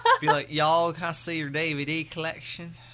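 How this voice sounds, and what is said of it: Put-on Southern American accent. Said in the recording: “the South, it's like, y'all... True accent”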